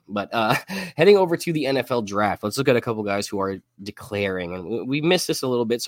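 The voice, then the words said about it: Sick, under-the-weather voice. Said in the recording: “please excuse my voice. I'm a little under the weather today”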